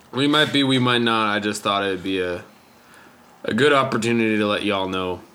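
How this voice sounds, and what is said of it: Speaks in a put-on accent. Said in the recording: “I don't know why I have an accent now”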